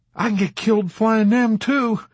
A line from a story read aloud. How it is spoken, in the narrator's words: Dobbs answered pugnaciously in his rough, quavering voice